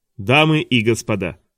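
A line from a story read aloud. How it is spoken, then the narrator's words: Loud proclamation. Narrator (Russian): громко провозгласил тот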